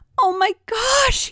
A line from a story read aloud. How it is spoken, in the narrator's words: screamed